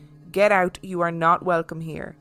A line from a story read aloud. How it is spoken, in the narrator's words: sternly saying